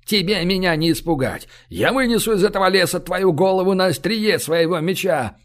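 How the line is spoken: Roaring. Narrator (Russian): Сотник взревел

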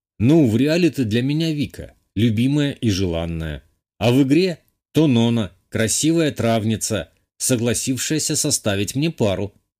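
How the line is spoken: Plain. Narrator (Russian): сказал я

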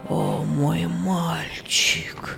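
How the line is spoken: Moan. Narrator (Russian): простонал Герберт

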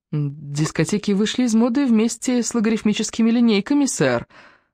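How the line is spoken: Sugary sweet objection. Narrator (Russian): сладчайшим голоском возразила я

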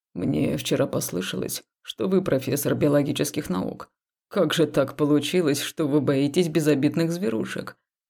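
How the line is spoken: Quiet deep male voice. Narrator (Russian): Тихо, глубоким мужским голосом спросил он

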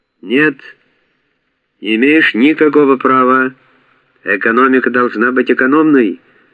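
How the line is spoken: Shouting. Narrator (Russian): кричал Василий

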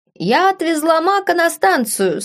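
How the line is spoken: Ringing female voice. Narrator (Russian): сообщила она звонким голосом

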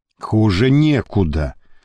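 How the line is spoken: Gloomy. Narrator (Russian): мрачно сказал папа Сочинский

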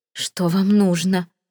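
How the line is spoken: Forced out, strained. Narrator (Russian): выдавила она

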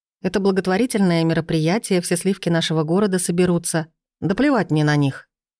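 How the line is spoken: Sharp, curt. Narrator (Russian): Резко бросает Ник

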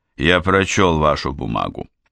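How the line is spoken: Dry. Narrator (Russian): Муромцев сухо произносит

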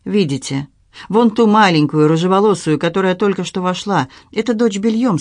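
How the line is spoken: Plain. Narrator (Russian): сказала она

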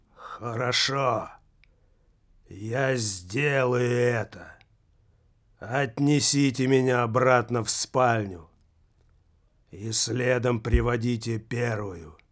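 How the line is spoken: Muffled hollow voice. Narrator (Russian): глухим голосом произнес

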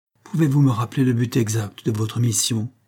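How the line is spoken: Sighed, countess. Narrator (French): soupire la comtesse

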